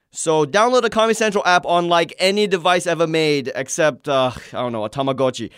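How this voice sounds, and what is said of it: Australian accent. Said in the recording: “this accent is Australian”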